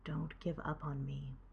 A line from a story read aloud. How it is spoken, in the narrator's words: Derek whispers